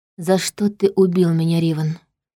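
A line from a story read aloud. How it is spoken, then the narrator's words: Quiet question. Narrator (Russian): негромко спросила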